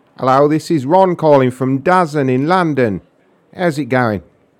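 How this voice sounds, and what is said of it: Inconsistent put-on accent. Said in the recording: “I don't know what's happening to my accent... My accent's gone all over the place... I call back in my regular voice”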